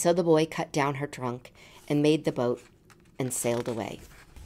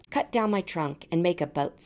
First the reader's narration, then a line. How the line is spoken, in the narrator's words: said the tree